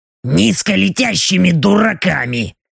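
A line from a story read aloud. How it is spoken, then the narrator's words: Displeased grumble. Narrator (Russian): Недовольно буркнула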